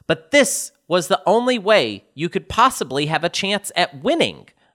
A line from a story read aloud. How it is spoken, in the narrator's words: finally manage to exclaim